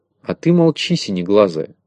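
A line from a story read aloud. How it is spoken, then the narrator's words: Grumbled. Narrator (Russian): проворчала Авоська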